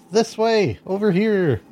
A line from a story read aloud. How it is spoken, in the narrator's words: yell